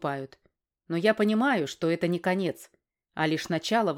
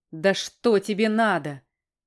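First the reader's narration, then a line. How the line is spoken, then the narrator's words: Shouted. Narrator (Russian): выкрикнул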